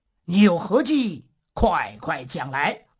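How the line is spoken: Cold question. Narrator (Chinese): 朱元璋冷冷地问他

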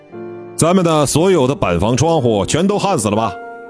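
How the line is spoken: Loud shout. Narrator (Chinese): 李新民冲着手握电焊枪的队员们高声地喊

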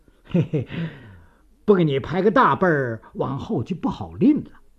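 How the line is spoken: Chuckling. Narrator (Chinese): 祖宪廷呵呵一笑

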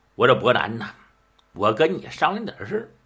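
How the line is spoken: Hushed. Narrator (Chinese): 低声商议，就听武伯北说

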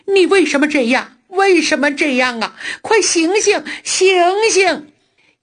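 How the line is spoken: Crying, shouting. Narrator (Chinese): 她哭着喊着

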